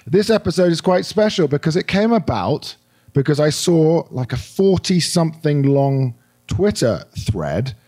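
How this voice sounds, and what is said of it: Hoarse, croaky voice. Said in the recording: “My very able apologies to all of you for my voice. ... I've got a little bit of a frog in my throat”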